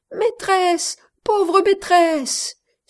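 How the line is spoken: Cried out. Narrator (French): s'écriait-elle

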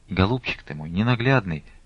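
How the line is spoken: Sobbing speech. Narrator (Russian): всхлипывая, говорила она

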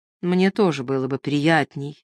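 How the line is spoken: Grim, meaningful reminder. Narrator (Russian): мрачно и многозначительно напомнил

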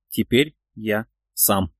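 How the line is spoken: Quietly said. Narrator (Russian): тихо произнес

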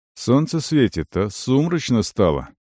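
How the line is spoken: Thoughtful. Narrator (Russian): задумчиво сказал Вент

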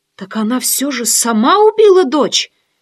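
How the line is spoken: Exclaiming. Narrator (Russian): воскликнула я

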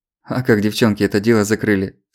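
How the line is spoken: Laughing question. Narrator (Russian): спросил осмеявшись Злобин

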